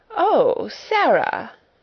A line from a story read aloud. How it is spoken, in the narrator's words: she exclaimed